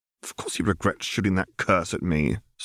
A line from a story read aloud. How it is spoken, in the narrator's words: scoffed Hermione